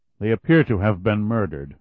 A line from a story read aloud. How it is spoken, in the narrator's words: Meyer replied in a harshly patient way